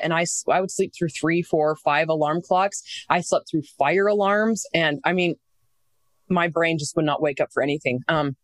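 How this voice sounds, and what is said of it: Strained, worn-out voice. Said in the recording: “my voice is still shot from over dictating”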